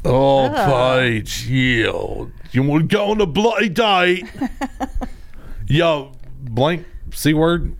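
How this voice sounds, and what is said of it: Put-on British accent. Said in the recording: “I don't know which British accent I want to go into.”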